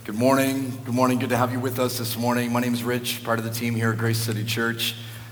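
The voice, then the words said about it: Croaky, strained lost voice. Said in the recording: “I've managed to lose my voice ... apologies that I sound a bit croaky”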